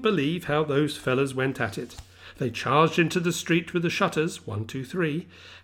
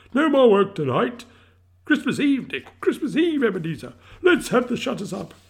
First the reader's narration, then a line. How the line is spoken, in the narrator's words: cried old with a sharp clap of his hands